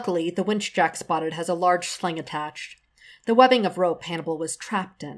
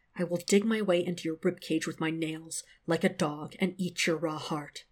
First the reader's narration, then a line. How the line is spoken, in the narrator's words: Will declares, still just above a whisper